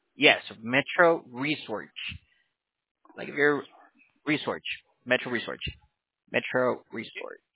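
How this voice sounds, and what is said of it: Regional accent, like North Pennsylvania. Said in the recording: “you must have an accent that's like North Pennsylvania or something. I couldn't pick it up.”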